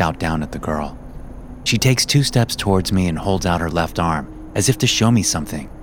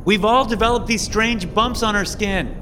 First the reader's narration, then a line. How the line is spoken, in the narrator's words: the blonde girl shouts